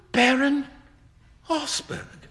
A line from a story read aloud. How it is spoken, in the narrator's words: cried Hughie